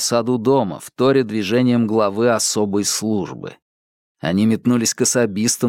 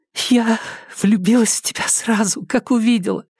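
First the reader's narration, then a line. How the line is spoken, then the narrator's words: Sobbing whisper in ear. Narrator (Russian): всхлипнув, шепнула она ему на ухо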